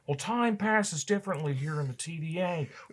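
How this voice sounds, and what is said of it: Imitates another person's voice. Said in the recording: “That was impressive. That was a really good impression. ... He says it just like that”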